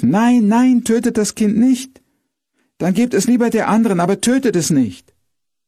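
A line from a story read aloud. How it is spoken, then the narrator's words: Woman screaming loudly. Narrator (German): schrie auf einmal eine der beiden Frauen laut auf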